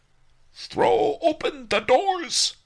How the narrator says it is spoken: roared Liverlips Lu

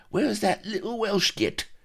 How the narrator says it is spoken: Rackham spat

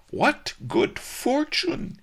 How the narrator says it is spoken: he cried

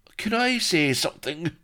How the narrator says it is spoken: Blood, taut in his bonds, spoke in an anguished voice

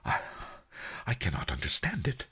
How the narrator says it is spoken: the merchant whispered

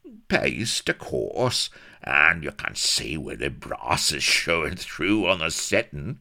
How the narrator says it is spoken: he wheezed throatily

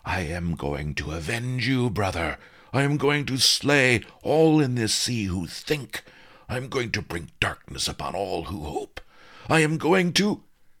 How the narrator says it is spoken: Water pulsed through his gill slits as he cried out

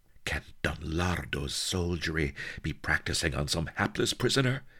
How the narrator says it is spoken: gasped Sheba

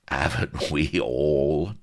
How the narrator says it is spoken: chuckled Vladimir, no whit abashed

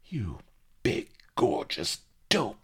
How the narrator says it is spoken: she hissed fiercely

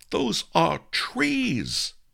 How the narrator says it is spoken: exclaimed

